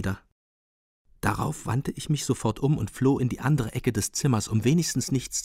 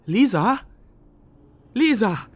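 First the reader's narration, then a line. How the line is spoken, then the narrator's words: Timid half-loud call. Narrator (German): rief durchs Treppenhaus, aber zaghaft halblaut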